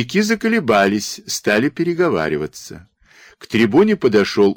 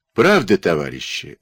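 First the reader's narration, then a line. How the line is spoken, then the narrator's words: Muffled, calm voice. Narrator (Russian): заговорил глуховатым, спокойным голосом Киренюк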